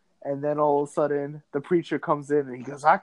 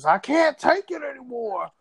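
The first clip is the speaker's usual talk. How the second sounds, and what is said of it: Imitated preacher voice. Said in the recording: “my preacher impersonation.”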